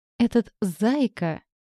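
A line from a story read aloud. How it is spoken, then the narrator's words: Snorted. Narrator (Russian): хмыкнул Рэй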